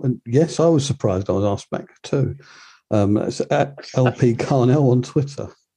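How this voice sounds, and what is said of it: Laconic drawling speech. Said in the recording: “laconic drawl”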